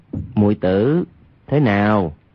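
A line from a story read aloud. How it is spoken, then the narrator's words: Lowered voice. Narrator (Vietnamese): Hoàng Nhan Khang hạ giọng nói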